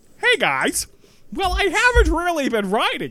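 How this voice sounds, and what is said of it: Silly put-on character voice. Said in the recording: “why do I always give Danielle a stupid voice?”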